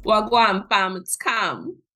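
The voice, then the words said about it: Put-on British Jamaican accent. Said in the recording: “Was that an accent? ... That was British? ... It was, you know, British Jamaican.”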